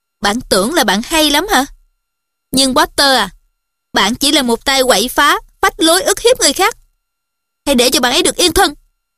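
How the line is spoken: Said coldly. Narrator (Vietnamese): Cô lạnh lùng nói

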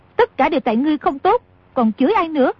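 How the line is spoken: Angry. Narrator (Vietnamese): A Kha tức giận nói

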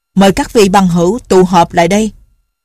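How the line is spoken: Loud old man. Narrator (Vietnamese): lão lớn tiếng nói

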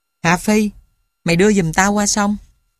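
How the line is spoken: Soft. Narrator (Vietnamese): Nó nói khẽ

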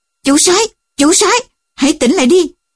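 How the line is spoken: Confused shouting. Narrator (Vietnamese): Họ không hiểu chuyện gì đã xảy ra, liền hét lên

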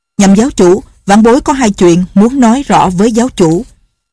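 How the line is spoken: Loud, resolute. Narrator (Vietnamese): Lệnh Hồ Xung không còn do dự gì nữa, lớn tiếng nói

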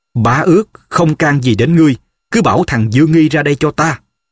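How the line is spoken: Loud. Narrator (Vietnamese): Diên lớn tiếng nói

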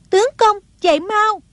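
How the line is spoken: Alarmed cry. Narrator (Vietnamese): kêu lên

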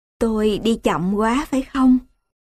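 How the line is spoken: Embarrassed smiling. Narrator (Vietnamese): vợ ông cũng mỉm cười xấu hổ và nói

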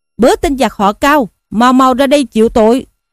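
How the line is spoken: Battle shout. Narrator (Vietnamese): Lâm Xung quát lên rằng

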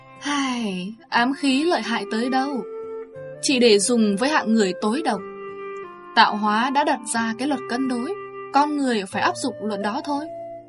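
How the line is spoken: Sighing. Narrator (Vietnamese): Tỳ bà công chúa thở dài nói

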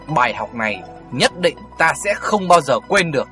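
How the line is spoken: Hissed through gritted teeth. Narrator (Vietnamese): Tiểu Phi nghiến răng và nói như rít từng tiếng một

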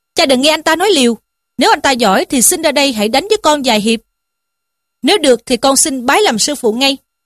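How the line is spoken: Angry youth. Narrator (Vietnamese): Thiếu niên ... ra dáng tức giận mà rằng

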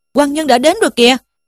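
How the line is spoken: Sudden shout. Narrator (Vietnamese): thì bỗng thấy một tên trang khách kêu lên rằng

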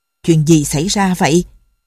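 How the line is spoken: Angry question. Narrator (Vietnamese): Buộc giận dữ hỏi

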